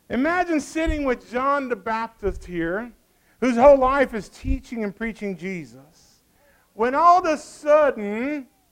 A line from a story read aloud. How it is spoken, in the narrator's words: he yells